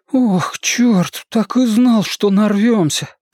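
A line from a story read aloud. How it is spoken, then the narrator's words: Groaning. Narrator (Russian): простонал Бен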